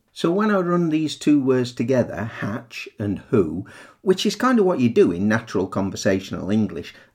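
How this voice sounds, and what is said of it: Northern English accent. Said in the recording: “with my northern accent”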